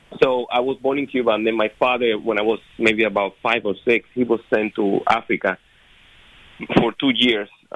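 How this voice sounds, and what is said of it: Cuban accent in English. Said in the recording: “I was born in Cuba, as many of your listeners probably know, figured out by my accent.”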